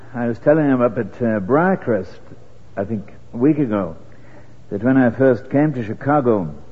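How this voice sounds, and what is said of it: British accent. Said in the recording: “Hope you haven't any trouble with a British accent. It varies a bit. ... I hope it's got a bit brushed off”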